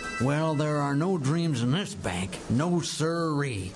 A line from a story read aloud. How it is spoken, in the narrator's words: grumbled old Hockaday